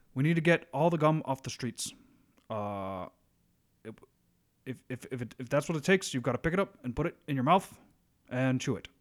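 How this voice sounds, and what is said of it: Imitates another person's voice. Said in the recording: “my Obama impersonation could use some work”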